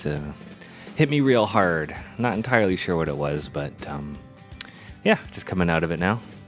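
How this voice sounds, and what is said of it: Sick, rough-sounding voice. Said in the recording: “you might hear it in my voice ... a bit of sickness ... coughed so much”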